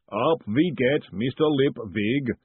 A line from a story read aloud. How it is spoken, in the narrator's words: said the booming voice